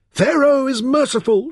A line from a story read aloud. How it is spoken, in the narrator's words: shouted the congregation in one voice